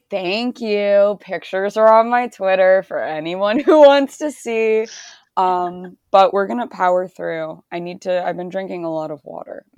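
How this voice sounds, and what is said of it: Hoarse, partly lost voice. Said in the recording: “my voice sounds so bad ... My voice is a little gone”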